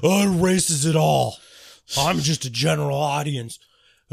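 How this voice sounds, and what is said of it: Imitates another person's voice. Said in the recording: “That's my impression of you.”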